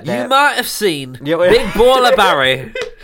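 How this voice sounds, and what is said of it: Exaggerated put-on Yorkshire accent. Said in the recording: “offensive Yorkshire accent”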